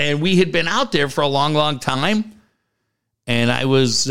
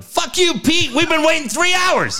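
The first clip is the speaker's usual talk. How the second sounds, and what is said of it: Yelling. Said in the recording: “I yelled... you're yelling”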